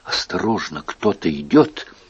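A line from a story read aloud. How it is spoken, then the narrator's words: Frightened child. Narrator (Russian): Маленькая Екатерина испуганно проговорила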